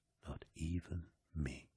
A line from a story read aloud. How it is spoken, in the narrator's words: Horus whispered